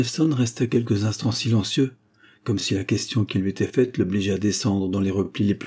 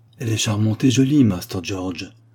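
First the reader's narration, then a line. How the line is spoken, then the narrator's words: Very thoughtful. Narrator (French): dit enfin le philosophe d'un ton très pensif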